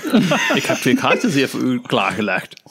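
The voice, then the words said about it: Put-on German accent in Dutch. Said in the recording (Dutch): “een Duits accent. Dat maakt het nog leuker.”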